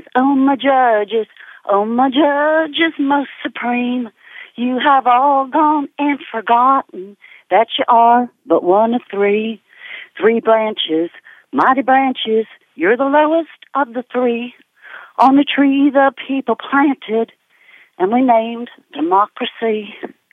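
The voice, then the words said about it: Put-on country twang. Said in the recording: “let me get my twang on here”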